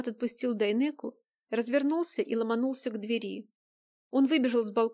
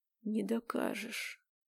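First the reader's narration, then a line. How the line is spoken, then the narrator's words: Quiet hissing. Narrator (Russian): Влад говорил тихо, будто шипел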